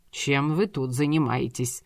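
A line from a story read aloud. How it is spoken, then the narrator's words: Stern repetition. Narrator (Russian): строго повторил Евнух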